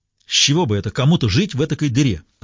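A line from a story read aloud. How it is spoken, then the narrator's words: Irritated question. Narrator (Russian): раздраженно поинтересовался бармен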